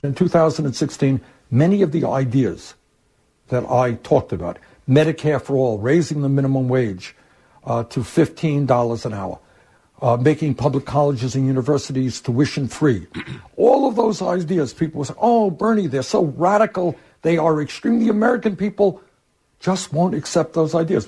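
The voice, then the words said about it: Heavy Brooklyn accent. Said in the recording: “him in a heavy Brooklyn accent”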